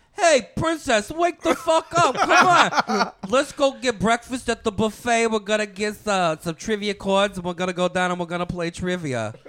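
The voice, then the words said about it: Impersonation of a friend's mother. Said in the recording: “it's terrible impersonation”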